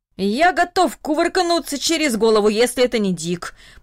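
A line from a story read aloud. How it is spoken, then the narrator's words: Old man grumbling. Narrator (Russian): пробурчал дедушка Даниил себе под нос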